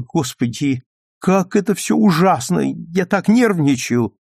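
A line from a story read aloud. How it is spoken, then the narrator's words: Sudden exclamation. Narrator (Russian): вдруг воскликнула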